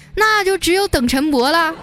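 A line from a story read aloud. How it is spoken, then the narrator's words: Sudden loud shout. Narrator (Chinese): 突然啊，有一个人猛喊了一嗓子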